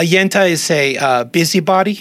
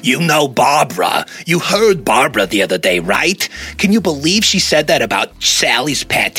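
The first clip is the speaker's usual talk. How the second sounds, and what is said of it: Put-on New Jersey Yenta accent. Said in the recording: “Is that like a New Jersey accent? A woman? ... I'm practicing my Yenta accent. ... you nailed it. That sounds like that person.”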